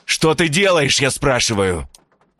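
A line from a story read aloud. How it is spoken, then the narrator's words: Furious shout. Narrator (Russian): Закричал в бешенстве Бувайсар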